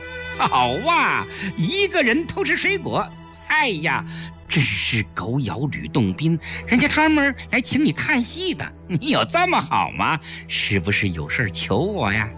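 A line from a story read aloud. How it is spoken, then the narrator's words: Teasing laugh. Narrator (Chinese): 崔丽打笑道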